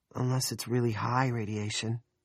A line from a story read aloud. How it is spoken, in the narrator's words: Nori said uneasily